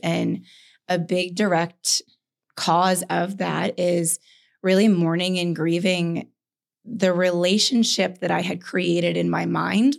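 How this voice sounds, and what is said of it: Hoarse, strained, fading voice. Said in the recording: “This may not sound like me... I am losing my voice a bit... my voice actually is the way that it is from a lot of tears being released these last couple of days”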